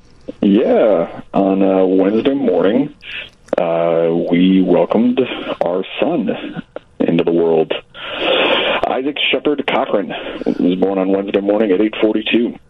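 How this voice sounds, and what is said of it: Tired-sounding voice. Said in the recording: “He sounds tired”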